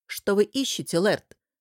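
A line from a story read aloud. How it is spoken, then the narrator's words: Stern question. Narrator (Russian): строго спросил один из эскулапов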